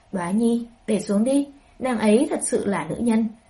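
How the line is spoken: Laughing loudly. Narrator (Vietnamese): Ha ha, Hạ Hầu Cảnh nhịn không được cười to, nói

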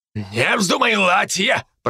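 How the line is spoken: Growled. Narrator (Russian): прорычал на него Адзаки

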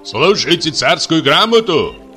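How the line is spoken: Loud booming shout. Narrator (Russian): зычно крикнул начальник

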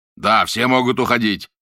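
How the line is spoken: Loud announcement. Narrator (Russian): громко объявил Барбаросса

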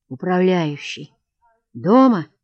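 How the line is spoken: Muffled, hollow question. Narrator (Russian): спросил он глухо

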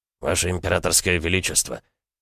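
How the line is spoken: Quiet call. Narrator (Russian): Владыка тихо позвал монарха

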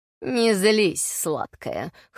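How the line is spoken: Smirking grunt. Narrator (Russian): хмыкнул Нортон

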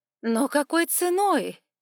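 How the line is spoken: Exclaiming woman. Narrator (Russian): воскликнула блондинка

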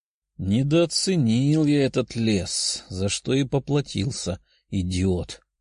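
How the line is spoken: Muttering young man. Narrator (Russian): пробормотал парень

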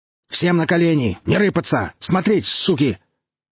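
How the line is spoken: Terrifying bark. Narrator (Russian): гаркнул кто-то страшно

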